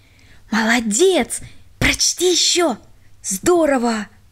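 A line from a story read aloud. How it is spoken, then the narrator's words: Whispers from all sides. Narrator (Russian): Свете со всех сторон шептали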